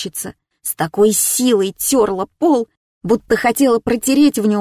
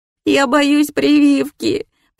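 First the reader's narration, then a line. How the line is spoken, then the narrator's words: Mumbling through bitter sobs. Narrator (Russian): промямлила я, горько всхлипывая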